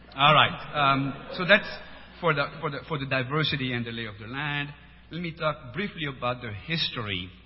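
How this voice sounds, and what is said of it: French-accented English. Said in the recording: “The accent, I was born in France”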